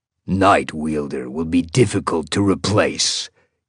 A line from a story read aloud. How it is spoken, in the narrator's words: he growled